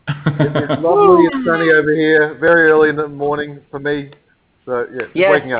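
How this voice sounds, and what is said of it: Australian accent. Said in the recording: “You sound Australian.”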